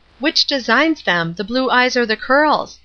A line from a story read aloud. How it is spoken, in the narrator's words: Marion asked gravely